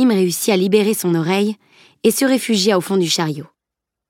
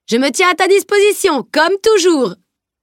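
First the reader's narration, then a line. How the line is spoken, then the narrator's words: Knight shouting. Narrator (French): cria le chevalier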